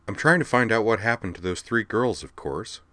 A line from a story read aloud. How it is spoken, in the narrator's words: Skuld replied